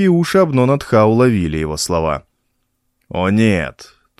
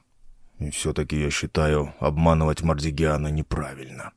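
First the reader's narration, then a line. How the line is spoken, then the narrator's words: Muttered under breath. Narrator (Russian): пробормотал Наркхай себе под нос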